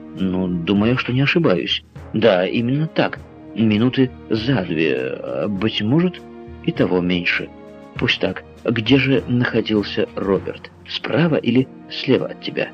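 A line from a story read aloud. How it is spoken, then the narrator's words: Plain. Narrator (Russian): спросил Макнапс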